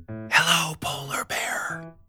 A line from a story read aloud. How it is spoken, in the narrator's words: whispered Penry